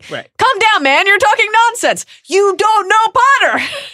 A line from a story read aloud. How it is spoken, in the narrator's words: shrieked Snape